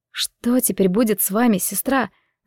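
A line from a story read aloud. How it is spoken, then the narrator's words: Worried whisper. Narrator (Russian): с беспокойством прошептала я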